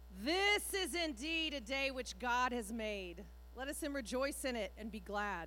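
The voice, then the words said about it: Loud projected voice. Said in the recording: “do this loud voice.”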